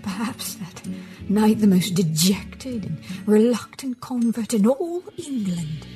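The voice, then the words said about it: Poor put-on British accent. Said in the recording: “my very poor attempt at a British accent”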